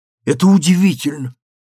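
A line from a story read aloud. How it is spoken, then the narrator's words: Exclamation. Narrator (Russian): воскликнула Алиса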